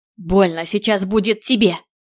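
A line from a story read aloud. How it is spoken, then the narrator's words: Growling. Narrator (Russian): Оказывается, я тоже могу рычать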